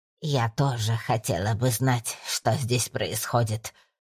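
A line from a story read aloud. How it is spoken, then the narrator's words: Hissing. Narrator (Russian): прошипела полная, затянутая в цветастое платье дама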